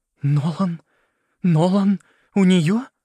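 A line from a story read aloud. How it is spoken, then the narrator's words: Trembling questioning voice. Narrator (Russian): дрожащим голосом спросила она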